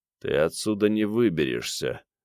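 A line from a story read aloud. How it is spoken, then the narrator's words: Forced calm, trembling voice. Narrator (Russian): Лысый старался говорить спокойно, но голос его дрожал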